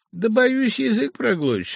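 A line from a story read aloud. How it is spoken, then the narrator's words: Laughing. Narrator (Russian): отвечал офицер, смеясь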